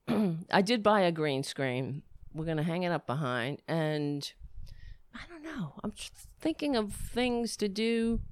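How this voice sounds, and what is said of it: Hoarse, voice giving out. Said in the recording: “I'm losing my voice. ... Why am I losing my voice?”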